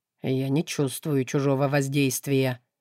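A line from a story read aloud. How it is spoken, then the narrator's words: Cold matter-of-fact statement. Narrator (Russian): холодно констатировал он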